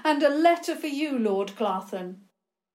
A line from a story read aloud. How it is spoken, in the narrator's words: George called out